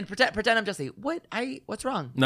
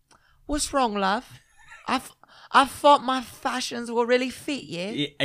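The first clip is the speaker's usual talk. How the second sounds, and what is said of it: Put-on British accent. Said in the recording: “you gotta do it in a British accent.”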